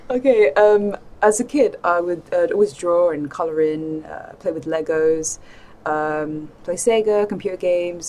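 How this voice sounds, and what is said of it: Somewhat British accent. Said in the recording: “lovely accent ... It's kind of British.”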